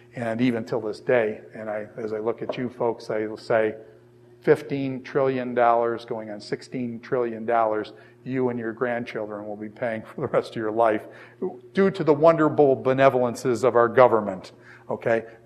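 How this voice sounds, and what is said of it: Sarcastic tone. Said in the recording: “you can hear the sarcasm in my voice.”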